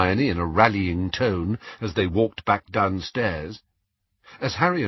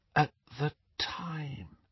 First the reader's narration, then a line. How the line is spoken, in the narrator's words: she finished in a whisper